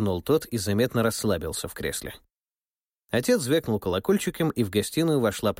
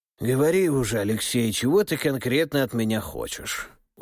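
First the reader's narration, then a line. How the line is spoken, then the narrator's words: Weary sigh. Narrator (Russian): Устало вздохнул Руслан Александрович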